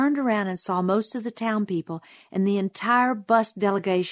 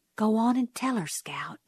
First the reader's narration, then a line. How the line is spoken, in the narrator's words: someone whispered